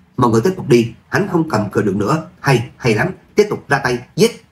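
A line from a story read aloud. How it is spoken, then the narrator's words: Joyful loud shout. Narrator (Vietnamese): Người thanh niên lực lưỡng mừng rỡ cao giọng hét lên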